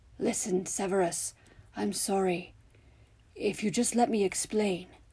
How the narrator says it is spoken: he said hoarsely in that calm voice of his

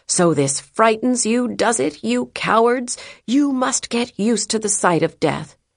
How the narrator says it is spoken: One assailant shouted

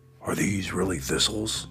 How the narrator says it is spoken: he whispered

